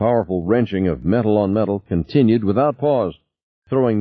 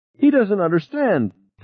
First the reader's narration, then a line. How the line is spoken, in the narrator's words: Ted shouted